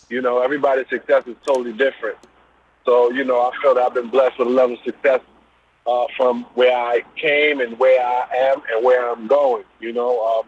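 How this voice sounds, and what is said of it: Brooklyn accent. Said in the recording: “Brooklyn, I hear it in your voice. ... as soon as I heard you talk, I already knew what it was. Brooklyn!”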